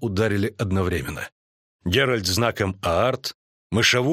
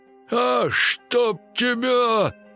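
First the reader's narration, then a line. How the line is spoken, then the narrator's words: Growling. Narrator (Russian): зарычал Мышавур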